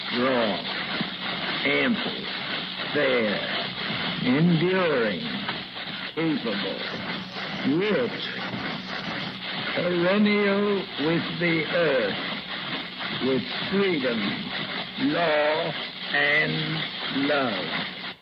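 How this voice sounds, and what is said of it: T.S. Eliot-like reading, hick accent. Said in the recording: “He sounds like T.S. Eliot with kind of a hick accent.”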